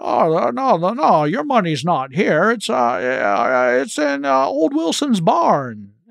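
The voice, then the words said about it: Bad Jimmy Stewart impression. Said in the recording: “That's a terrible Jimmy Stewart ... my impression”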